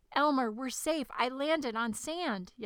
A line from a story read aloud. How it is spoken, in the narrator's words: yelled the dragon